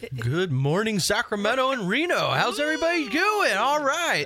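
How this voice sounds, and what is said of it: Exaggerated radio DJ voice. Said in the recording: “have we heard ... since he's in the big chair? What about ... or ...? Can they do one ... radio voice.”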